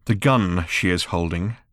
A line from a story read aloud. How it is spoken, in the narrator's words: said Ford quietly